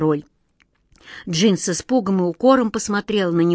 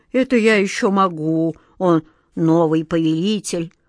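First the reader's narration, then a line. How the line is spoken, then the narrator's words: Glum. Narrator (Russian): уныло кивнул головой Джин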